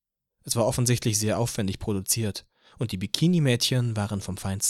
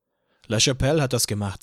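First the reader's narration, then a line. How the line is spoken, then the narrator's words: Plain. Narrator (German): sagte Joe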